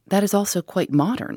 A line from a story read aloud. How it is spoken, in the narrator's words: said the lady